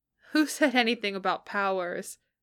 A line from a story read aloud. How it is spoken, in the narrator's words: Peter asked, laughing